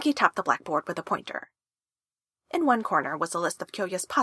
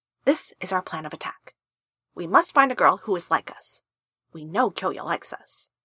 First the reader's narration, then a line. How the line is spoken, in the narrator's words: Tamaki said